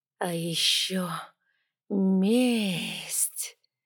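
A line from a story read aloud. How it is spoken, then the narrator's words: Venomous inner drawl. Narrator (Russian): протянул мерзкий ядовитый кто-то глубоко внутри меня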